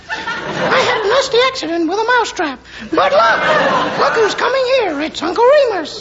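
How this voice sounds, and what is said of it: Ridiculous little Mickey Mouse voice. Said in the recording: “in that ridiculous little voice, mouse cub”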